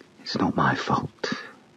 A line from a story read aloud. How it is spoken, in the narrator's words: whispered